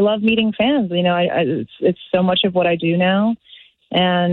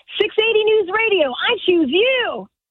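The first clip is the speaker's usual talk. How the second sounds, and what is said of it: Ash Ketchum character voice. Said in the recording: “is the voice of Ash Ketchum on Pokemon ... they want me to do the voice for them”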